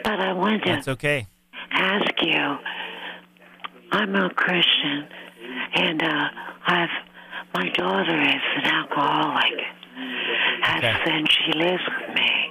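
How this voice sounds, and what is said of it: Hoarse voice. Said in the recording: “I've got a bit of laryngitis”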